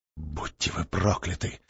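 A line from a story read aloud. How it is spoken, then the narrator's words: Muttered curse. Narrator (Russian): пробормотал Даманский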